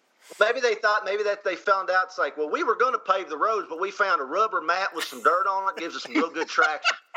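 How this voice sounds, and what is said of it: Exaggerated fake Southern accent. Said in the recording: “who already has a Southern accent, does another Southern accent on top of it ... When he does a fake Southern accent.”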